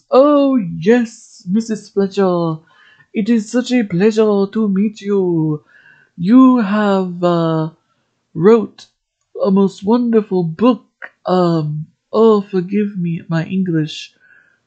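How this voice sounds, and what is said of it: Put-on French accent. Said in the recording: “my French accent's gonna suck”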